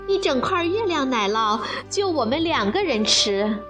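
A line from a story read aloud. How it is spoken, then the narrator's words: Giggling. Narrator (Chinese): 布布咯咯地笑着说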